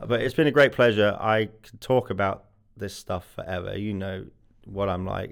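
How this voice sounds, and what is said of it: Congested, bunged-up voice. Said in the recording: “apologize for my voice. I'm recovering from a flu from last week in Lithuania, so I'm not normally this bunged up.”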